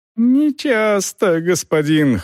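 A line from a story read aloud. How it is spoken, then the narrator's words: Whimpering. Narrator (Russian): хныкал колдун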